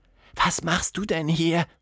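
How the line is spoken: Whisper. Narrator (German): flüsterte

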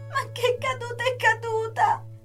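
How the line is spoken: Screaming while crying. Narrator (Italian): urlò Sara piangendo

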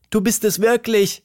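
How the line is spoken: Called out. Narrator (German): rief Tilda

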